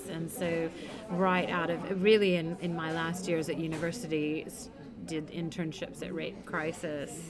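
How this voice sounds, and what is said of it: American English accent. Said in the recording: “you can tell from my accent, I'm from the US”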